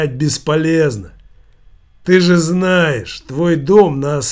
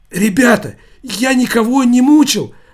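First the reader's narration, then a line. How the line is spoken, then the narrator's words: Pleading. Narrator (Russian): взмолился Шиз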